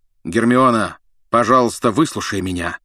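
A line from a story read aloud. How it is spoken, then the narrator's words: Loud barking shout. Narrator (Russian): Гаркнул Люпин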